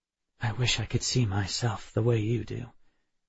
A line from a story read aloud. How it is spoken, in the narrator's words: I whispered